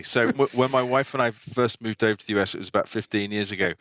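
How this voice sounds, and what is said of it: Strong non-American accent. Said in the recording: “I may not necessarily be from downtown Boston with my crazy accent here.”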